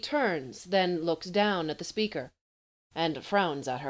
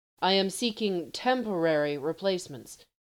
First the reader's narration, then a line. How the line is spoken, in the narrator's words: he says stiffly